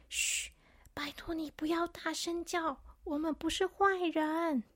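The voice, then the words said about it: Quiet hushed voice. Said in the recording (Chinese): “小声的”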